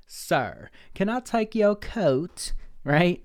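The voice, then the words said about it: Weird fancy accent. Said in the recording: “I don't know why that was in a weird accent, but you know what I mean? Like fancy.”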